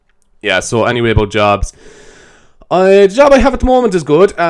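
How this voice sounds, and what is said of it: Usual voice. Nothing is said of it.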